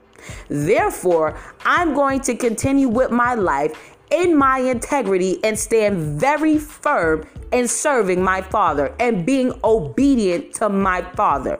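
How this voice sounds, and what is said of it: Forceful, angry-sounding serious delivery. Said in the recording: “I sound mad ... I'm extremely serious ... I don't have to sound like I'm Princess Fiona or whatever, some nice little quiet little shy person ... When I talk with conviction, this is how I sound.”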